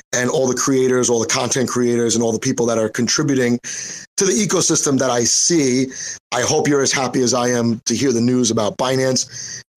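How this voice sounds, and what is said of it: Hoarse, worn-out voice. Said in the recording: “I know my voice is shot. I got a little bit sick this week”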